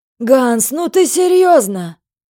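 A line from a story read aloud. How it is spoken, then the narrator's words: Fat man's exclamation. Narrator (Russian): воскликнул толстяк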